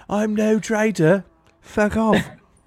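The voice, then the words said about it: Put-on English accent. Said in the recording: “you just hit him with the English accent”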